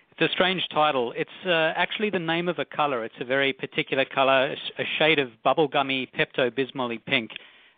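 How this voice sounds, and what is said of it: Australian accent. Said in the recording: “a cute Australian accent.”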